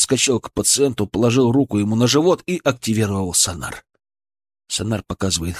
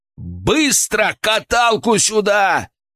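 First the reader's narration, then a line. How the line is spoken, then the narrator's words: Yelling orders. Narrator (Russian): заорал я на ошеломленных полицейских и медсестер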